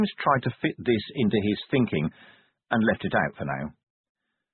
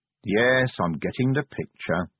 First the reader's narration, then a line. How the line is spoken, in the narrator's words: said Vimes wearily